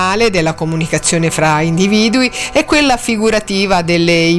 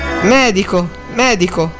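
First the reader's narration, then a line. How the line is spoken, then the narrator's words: Almost stammering. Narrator (Italian): disse Drogo quasi balbettando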